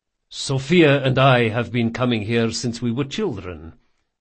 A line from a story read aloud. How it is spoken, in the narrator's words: said Lorenzo